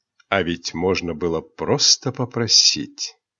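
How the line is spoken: Sarcastic whisper. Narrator (Russian): он язвительно прошептал

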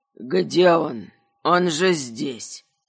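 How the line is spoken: Grumbled. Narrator (Russian): проворчал князь Кабанов

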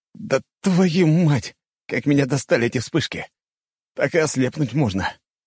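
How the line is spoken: Grumbled. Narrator (Russian): буркнул я

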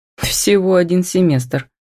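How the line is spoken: Snorting smirk. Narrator (Russian): хмыкнул Агафонов

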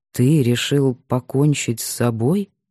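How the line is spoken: Slow. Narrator (Russian): медленно сказал Кирилл

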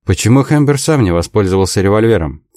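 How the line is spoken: Sharp question. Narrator (Russian): спросил Дик резко

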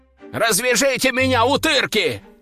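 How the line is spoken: Shouted. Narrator (Russian): закричал кто-то в углу

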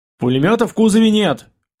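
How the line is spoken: Shouted. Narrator (Russian): крикнул Пашка

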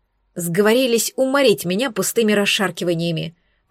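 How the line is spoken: Muttered grumble to self. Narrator (Russian): проворчала я про себя

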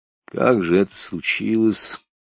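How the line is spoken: Tired question. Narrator (Russian): усталым голосом спросил Лапшин

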